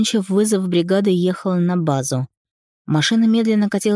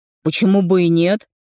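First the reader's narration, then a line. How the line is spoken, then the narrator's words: Wry grunt. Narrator (Russian): хмыкнул Клим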